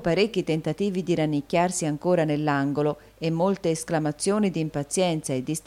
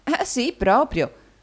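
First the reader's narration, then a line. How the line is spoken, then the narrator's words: Laughing reply. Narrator (Italian): rispose ridendo l'amica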